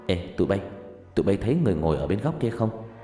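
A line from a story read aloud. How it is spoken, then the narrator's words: Soft whisper. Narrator (Vietnamese): nói khe khẽ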